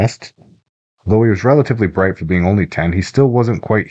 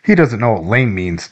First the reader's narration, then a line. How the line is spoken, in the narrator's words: Dylan said, laughing